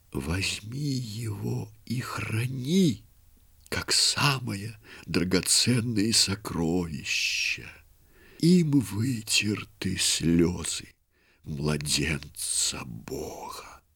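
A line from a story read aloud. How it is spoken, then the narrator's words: Weak, fading whisper. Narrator (Russian): слабеющим голосом прошептала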